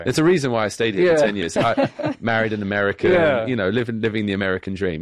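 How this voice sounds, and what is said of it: British accent. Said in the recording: “my British accent that makes me sound more... our guest has a British accent”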